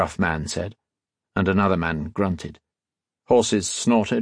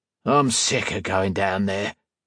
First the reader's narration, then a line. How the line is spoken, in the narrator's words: a man grumbled